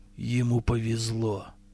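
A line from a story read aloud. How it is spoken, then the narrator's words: Gloomy remark. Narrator (Russian): мрачно заметил Амахаст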